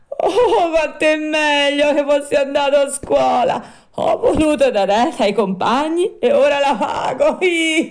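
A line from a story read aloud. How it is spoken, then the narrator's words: Wretched crying, shrieking plea. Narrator (Italian): L'infelice Pinocchio cominciò a piangere, a strillare, a raccomandarsi e piangendo diceva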